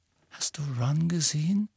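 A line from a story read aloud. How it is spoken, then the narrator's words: Quiet question. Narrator (German): fragte Hermine mit leiser Stimme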